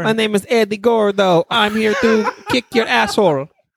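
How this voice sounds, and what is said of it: Put-on French-sounding foreign accent. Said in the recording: “you sound French ... it's French Brazilian, dude ... I can't do a Brazilian accent ... You sounded like the friggin' Red Stripe guy”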